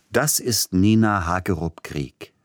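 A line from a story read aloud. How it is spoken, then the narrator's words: Plain. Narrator (German): sagte der Gatte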